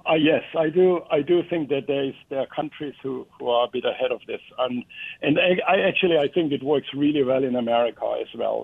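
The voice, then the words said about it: Foreign accent. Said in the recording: “You have an accent, so I'm guessing you grew up in a different country.”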